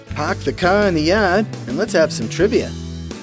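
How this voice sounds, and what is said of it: Poor put-on Boston accent. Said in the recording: “my terrible attempt at a Boston accent”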